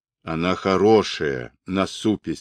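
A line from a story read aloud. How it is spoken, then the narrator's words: Plain. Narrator (Russian): сказал Олбор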